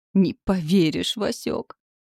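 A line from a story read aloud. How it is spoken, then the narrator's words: Moaning. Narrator (Russian): простонал муж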